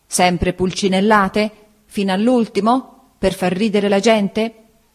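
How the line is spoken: Exclaimed. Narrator (Italian): esclamò

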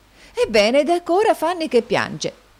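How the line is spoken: Astonished exclamation. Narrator (Italian): esclamò la signorina Price, di nuovo stupita

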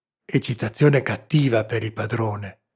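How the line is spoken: Whispered. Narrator (Italian): sussurrò il servo

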